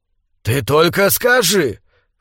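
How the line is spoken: Hoarse, confiding. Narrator (Russian): В хриплом голосе слышались доверительные нотки

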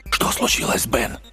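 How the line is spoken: Whispered question. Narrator (Russian): шепотом спросил Хессоп

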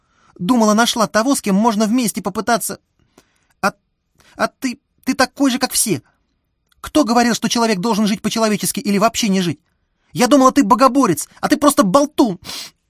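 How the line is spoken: Sobbing. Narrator (Russian): Оксана всхлипнула

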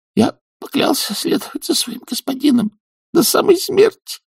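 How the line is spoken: Hoarse. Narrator (Russian): хрипло сказал шут

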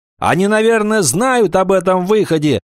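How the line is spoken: Shout. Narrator (Russian): прокричал Роберт

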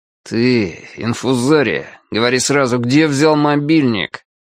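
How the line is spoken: Through gritted teeth. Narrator (Russian): Красавчик Дима сквозь зубы сказал

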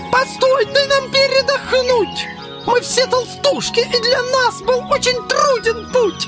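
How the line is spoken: Pleading. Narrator (Russian): Взмолились устрицы

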